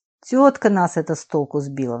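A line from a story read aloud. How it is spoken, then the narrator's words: Guard's sigh. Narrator (Russian): вздохнул охранник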